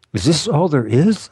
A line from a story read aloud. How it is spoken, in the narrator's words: I cried